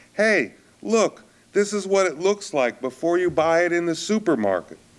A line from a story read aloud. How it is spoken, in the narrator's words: called out